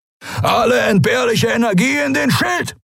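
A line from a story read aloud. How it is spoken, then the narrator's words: Bellowing into device. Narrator (German): brüllte Askur von den Kemcha'an in den Kubus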